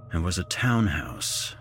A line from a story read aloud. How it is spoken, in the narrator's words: muttered to myself